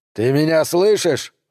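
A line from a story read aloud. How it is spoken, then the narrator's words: Yelling. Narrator (Russian): заорал Дэнс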